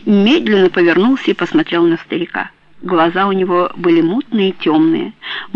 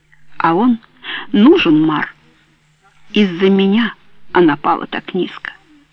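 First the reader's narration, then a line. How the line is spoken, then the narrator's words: Plain. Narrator (Russian): сказали губы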